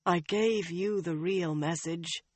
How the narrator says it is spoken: the woman said wearily

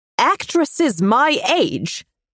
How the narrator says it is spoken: spat

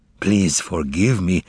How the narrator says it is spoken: the man who had come in replied in a hollow voice

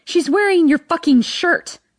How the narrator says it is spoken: I scream

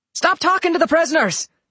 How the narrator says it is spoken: Tommy yelled

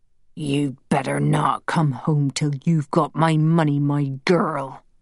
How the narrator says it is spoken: he growled

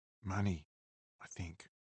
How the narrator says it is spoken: Lo whispered

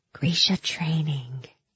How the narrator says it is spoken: I whispered dramatically

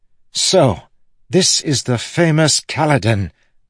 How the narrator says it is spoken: the man exclaimed

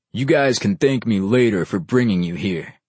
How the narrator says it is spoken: the big one sneered, making him somehow scarier

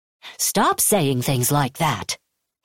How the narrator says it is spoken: Hadon snapped

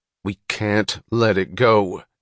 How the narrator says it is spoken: Eddie answered fiercely

